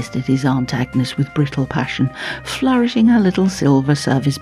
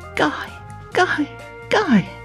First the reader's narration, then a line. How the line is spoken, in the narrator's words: cried Esther again, sharpening her own gaiety